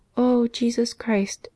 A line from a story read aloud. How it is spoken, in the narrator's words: cried, as she set out on this dreaded journey